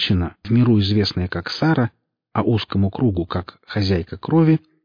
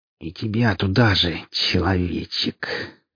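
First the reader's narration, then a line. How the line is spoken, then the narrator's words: Regretful hiss. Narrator (Russian): прошипела она, видимо, уже жалея, что нашла эту компанию на просторах зоны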